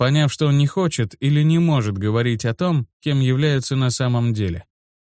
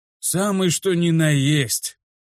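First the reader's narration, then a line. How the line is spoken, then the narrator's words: Ancient being exclaiming. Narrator (Russian): воскликнул древник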